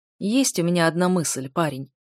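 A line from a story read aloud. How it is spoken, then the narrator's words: Snorting. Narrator (Russian): хмыкнул маг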